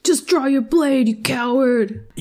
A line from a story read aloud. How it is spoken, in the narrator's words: people yelling from, like, the audience